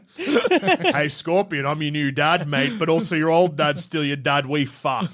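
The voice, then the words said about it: Put-on Australian accent. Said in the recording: “We all still have Australian accents.”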